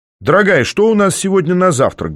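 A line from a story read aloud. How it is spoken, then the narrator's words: Cheerful shout. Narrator (Russian): бодро выкрикнул я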